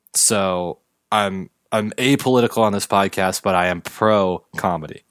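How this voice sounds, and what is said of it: Usual voice. Nothing is said of it.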